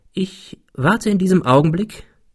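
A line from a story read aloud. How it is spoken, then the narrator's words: Calm. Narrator (German): fuhr er ruhig fort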